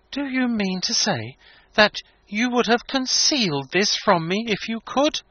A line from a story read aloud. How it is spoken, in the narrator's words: he exclaimed